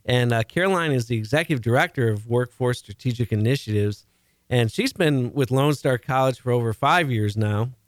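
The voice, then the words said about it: Chicago accent. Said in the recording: “I've got the Chicago accent going here.”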